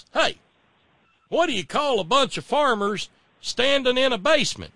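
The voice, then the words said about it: Sonny Perdue impression, cornpone Southern accent. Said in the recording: “he's got his cornpone accent”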